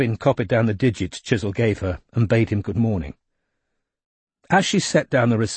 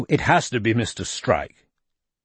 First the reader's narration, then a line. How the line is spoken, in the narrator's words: said the voice firmly